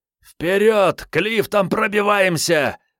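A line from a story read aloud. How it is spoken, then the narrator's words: Hoarse yelling from behind. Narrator (Russian): орал, хрипел за спиной Начо Перот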